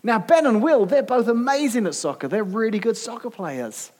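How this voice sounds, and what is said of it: British accent. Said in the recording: “he heard my accent ... whose dad's British”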